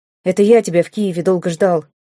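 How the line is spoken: Angry reply. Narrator (Russian): сердито ответил Ингвар

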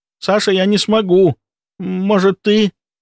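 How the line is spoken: Pleading. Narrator (Russian): взмолился он

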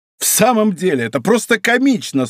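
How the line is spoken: Laughing exclamation. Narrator (Russian): с новым хохотом воскликнул утешенный Д'Артаньян

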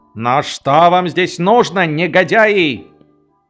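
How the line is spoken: Yelling. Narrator (Russian): Подпоручик Дуб, высовываясь из окна, заорал

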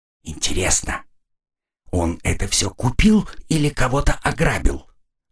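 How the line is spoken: Whispered question. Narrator (Russian): шепотом спросила Тора

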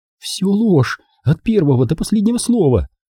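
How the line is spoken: Exclaiming. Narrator (Russian): воскликнула она

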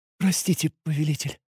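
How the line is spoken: Utterly empty voice. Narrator (Russian): совершенно опустошенным голосом произнесла Себе

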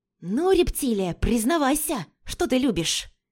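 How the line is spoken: Hiss from behind. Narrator (Russian): Прошипел голос из-за дивана

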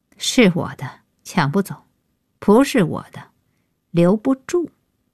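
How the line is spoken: Cold interruption. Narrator (Chinese): 开口，冷冷打断

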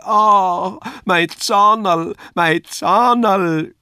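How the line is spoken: Cried out. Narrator (German): schrie

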